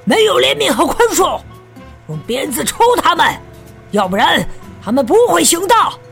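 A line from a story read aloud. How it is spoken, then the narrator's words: Shouting. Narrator (Chinese): 鹰眼喊起来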